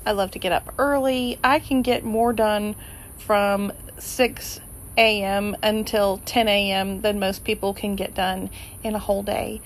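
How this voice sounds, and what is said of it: Quiet, low-energy evening voice. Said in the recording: “the tone of my voice sounds a little bit different ... This time of day, I'm quiet”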